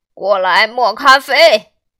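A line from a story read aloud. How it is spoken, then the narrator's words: Calling out. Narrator (Chinese): 他朝佐佩尔喊道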